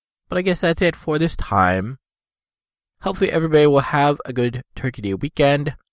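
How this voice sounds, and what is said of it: Sick, slightly odd-sounding voice. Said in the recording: “Still a bit sick. You can probably tell my voice is a little funny.”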